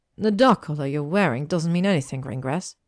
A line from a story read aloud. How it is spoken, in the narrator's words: Hermione snapped